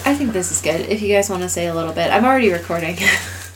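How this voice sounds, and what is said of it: Slightly higher-pitched, clearly enunciated podcast voice. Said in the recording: “podcast voice ... it's slightly higher pitched, and you enunciate slightly more clearly”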